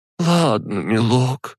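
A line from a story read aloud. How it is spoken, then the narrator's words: Sighing. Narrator (Russian): вздохнула она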